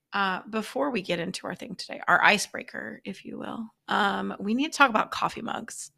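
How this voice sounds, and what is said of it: Voice sounds a little funky. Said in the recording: “it's allergy season. So that's why I sound a little funky today ... I call it my radio voice”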